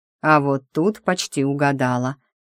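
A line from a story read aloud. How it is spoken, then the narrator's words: Snorting. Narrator (Russian): хмыкнул Ариас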